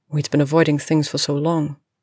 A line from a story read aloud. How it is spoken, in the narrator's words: Professor McGonagall said